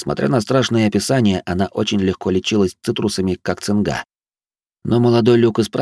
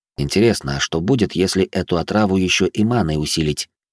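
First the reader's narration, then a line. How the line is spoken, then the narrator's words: Grumbled under breath. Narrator (Russian): буркнул я себе под нос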